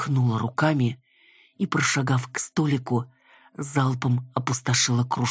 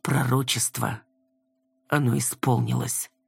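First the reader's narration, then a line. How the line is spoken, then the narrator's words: Muffled, very sad. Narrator (Russian): Обронила глухо и как-то слишком печально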